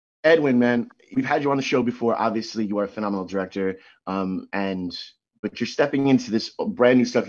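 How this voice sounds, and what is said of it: Slightly sore, raspy voice. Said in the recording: “My voice is still sort of a little sore and raspy.”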